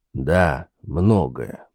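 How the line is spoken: Gloomy confirmation. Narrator (Russian): подтвердил мрачно Ланселот

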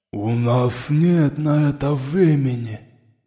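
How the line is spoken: Interjected remark. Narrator (Russian): внес свои 5 копеек Шепелявый

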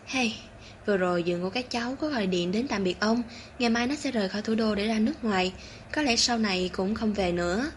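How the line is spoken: Weary sigh. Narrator (Vietnamese): Phó Lao Gia thở dài một hơi

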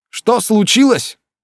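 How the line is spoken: Shouting. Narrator (Russian): закричал Алан

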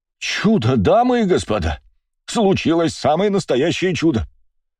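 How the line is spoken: Man's exclamation. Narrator (Russian): воскликнул мужчина, стоящий в толпе

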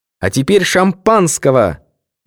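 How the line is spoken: Shouted. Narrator (Russian): крикнула

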